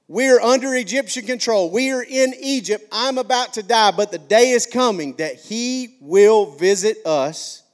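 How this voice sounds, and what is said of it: Southern Alabama accent. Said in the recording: “McCalla English. That's where I'm from, McCalla, Alabama, if you can't hear this little accent I've got going on”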